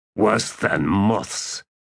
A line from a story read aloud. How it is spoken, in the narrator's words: Traveller muttered